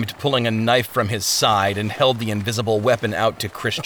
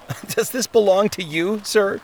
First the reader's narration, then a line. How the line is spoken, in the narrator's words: laughed